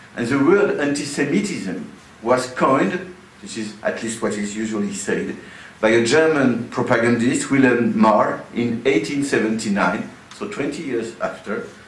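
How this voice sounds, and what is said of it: Non-native English accent. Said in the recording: “excuse my accent.”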